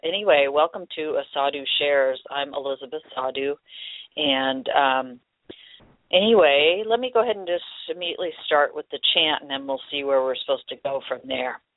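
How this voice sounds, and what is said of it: Froggy, hoarse voice. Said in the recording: “Pardon my froggy voice today. ... I have a little bit of a cold”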